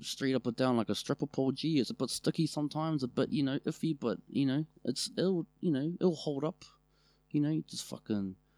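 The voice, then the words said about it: Put-on New Zealand accent. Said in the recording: “Let's go back to Auckland... I'm working on my dialect”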